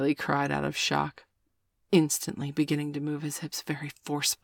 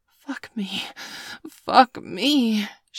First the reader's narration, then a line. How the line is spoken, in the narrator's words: she panted